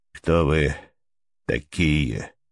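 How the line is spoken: Strange voice, in French. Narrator (Russian): спросил, наконец, по-французски своим странным голосом

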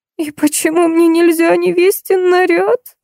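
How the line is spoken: Whimpering. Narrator (Russian): Захныкала Ниночка

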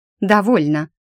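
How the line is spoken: Sharp interruption. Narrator (Russian): Резко оборвала его я

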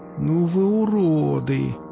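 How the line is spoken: Drawn-out drawl. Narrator (Russian): протянул Касьян

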